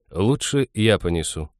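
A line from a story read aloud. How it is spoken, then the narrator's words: Calm. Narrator (Russian): спокойно сказал он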